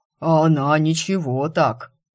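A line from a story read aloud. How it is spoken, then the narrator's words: Booming from iron belly. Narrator (Russian): прогудела из его чугунной утробы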